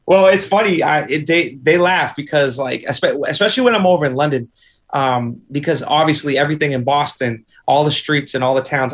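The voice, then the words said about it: Boston accent. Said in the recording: “what do they think of your accent... it's a pretty cool freaking accent”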